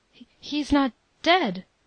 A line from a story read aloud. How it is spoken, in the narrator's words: I stammered out